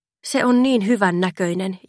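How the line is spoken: Sighed. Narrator (Finnish): Janina oli huokaissut Fannille

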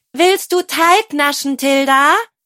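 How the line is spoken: Calling upward. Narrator (German): rief Berenike nach oben

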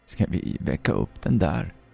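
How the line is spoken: Short man mutters, dry mocking laugh. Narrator (Swedish): muttrade den korte mannen med ett torrt, hånfullt skratt

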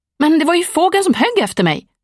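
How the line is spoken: Shouted reply. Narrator (Swedish): ropade Ellie till svar

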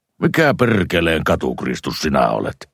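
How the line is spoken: Snapped harshly. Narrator (Finnish): hän tiuskaisi

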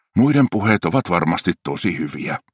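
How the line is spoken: Sighed. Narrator (Finnish): hän huokaisi

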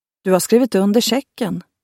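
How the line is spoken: Calm. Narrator (Swedish): sa muskelknutten lugnt

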